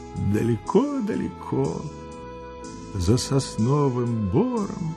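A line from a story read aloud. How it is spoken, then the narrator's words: Quiet, dreamy. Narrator (Russian): ответил он тихим, мечтательным голосом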